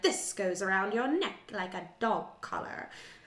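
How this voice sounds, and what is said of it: Character voice, slightly British accent. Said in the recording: “I don't know why I gave him that voice. He doesn't sound like that. ... This is a little less British accent.”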